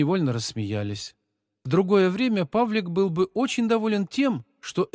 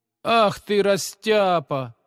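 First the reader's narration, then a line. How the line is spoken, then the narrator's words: Mocking jibe. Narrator (Russian): насмешливо поддел его двоечник Витя, который не выносил отличников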